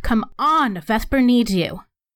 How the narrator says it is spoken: I'm going to shout

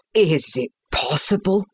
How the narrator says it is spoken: gasped the banker

